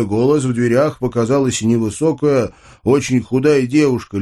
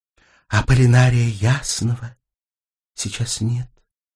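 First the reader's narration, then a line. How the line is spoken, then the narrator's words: Quiet reply. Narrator (Russian): тихо ответили мне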